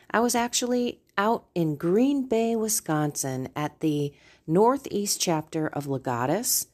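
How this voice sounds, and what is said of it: Slightly raspy voice. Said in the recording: “Pardon my voice, I'm a little raspy.”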